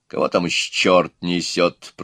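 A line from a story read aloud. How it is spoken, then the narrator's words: Grumbling. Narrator (Russian): проворчал отец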